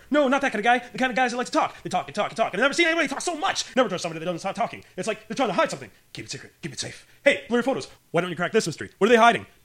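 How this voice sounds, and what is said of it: Rapid-fire improvised comic impression. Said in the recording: “That is so hard to impersonate... Impersonating Robin... goes off on a tangent... Rapid fire speed”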